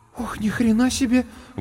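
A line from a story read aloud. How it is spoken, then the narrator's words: Breathless exclamation. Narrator (Russian): выдохнула Варвара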